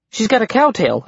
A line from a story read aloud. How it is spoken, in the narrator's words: I blurted